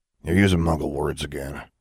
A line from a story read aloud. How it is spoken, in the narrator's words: Maximilian grumbled